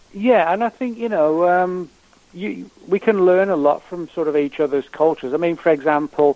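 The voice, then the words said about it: English accent. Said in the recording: “you can obviously tell from my voice, you know, I'm originally from England”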